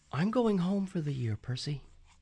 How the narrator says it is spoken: Annabeth said quietly

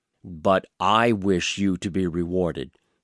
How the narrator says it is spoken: said the king in a stern voice

